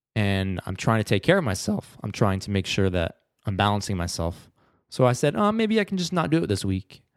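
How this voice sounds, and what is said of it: Slightly scratchy, sore-throated voice. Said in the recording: “I have a little bit of a sore throat today. My voice might sound a bit scratchy.”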